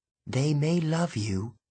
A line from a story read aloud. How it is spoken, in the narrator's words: she whispered